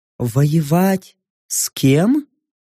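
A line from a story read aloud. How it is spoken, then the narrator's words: Surprised. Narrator (Russian): Удивленно отозвалась Копула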